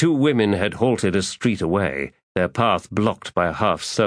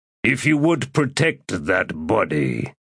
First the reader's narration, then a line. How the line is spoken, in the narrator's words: said in a growl